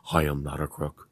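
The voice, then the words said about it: Richard Nixon impression. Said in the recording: “try to imitate the different voices, whether it be Richard Nixon”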